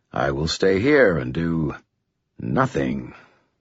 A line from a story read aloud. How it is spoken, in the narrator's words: Thomas said, his voice a little bitter